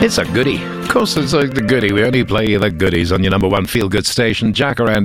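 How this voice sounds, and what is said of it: Usual voice. Nothing is said of it.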